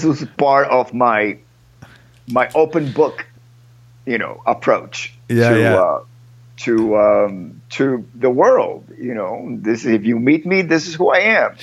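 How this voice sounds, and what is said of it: Speaks with a noticeable accent. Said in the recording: “people ask me, how come you still have an accent?”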